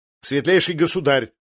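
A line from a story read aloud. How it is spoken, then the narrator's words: Sharp reminder. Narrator (Russian): резко напомнил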